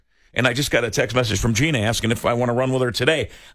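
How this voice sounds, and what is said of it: Slightly rough, hoarse voice. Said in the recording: “my voice is a little rough today”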